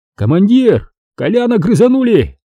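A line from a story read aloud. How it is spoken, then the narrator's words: Yelling over radio. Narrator (Russian): заорал кто-то в эфире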